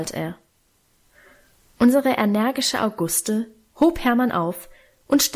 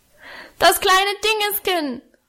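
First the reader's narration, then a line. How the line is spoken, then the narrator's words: Roaring. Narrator (German): brüllte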